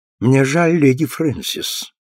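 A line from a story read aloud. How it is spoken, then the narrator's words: Gloomy. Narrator (Russian): сказал он мрачно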